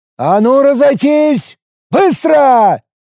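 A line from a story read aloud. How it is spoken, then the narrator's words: Shouted command. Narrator (Russian): прокричал полусотник Журек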